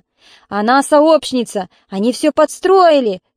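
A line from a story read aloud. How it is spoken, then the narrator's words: Shouting. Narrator (Russian): кричала муза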